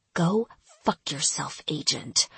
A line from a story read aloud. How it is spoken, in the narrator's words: she whispered, paralyzed by anger and disappointment